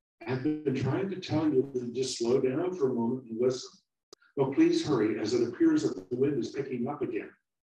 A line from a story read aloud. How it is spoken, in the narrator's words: the little apple said nervously